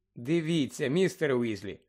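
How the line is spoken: Gentle. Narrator (Ukrainian): лагідно промовила Герміона

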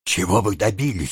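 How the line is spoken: Whispered question. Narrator (Russian): шепотом спросил доктор

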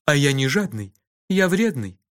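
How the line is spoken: Calm explanation. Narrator (Russian): спокойно объяснил Кофа

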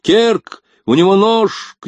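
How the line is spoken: Shouted. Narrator (Russian): крикнул Рес

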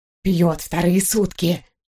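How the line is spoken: Booming loud whisper. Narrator (Russian): Шепотом, более подходящим на грохот камнепада, объявила она

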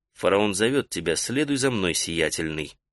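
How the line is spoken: Quiet. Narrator (Russian): Тентек негромко сказал

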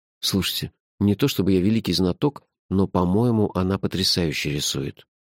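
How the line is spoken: Discreet whisper. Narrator (Russian): шепотом, чтобы не смущать художницу, сказал леди Ларри

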